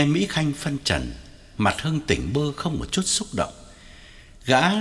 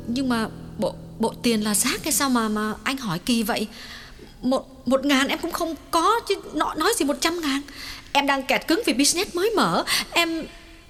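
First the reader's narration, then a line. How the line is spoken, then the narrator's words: Trembling, emphatic. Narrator (Vietnamese): Nàng lặng người một chút rồi run run nhấn mạnh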